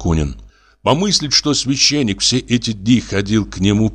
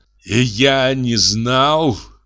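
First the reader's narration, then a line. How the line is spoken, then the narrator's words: Groaned. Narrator (Russian): простонал он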